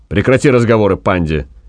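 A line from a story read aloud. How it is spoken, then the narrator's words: Angry. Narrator (Russian): сердито сказал Гай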